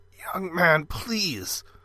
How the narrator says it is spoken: the man croaked

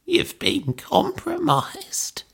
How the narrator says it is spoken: croaked

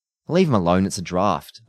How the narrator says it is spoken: said

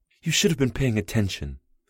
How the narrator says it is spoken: Abby snapped

